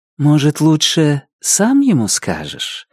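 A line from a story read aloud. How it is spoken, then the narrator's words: Gentle question. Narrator (Russian): ласково спросила Дебора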